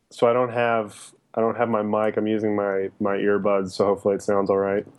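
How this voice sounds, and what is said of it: Groggy, just-woken-up voice. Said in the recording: “You sound like you just woke up. ... My voice has been kind of going in and out the last couple days.”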